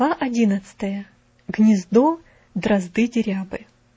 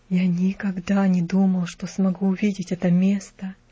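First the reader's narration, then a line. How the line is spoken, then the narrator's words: Whispered. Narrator (Russian): наконец шепотом проговорил он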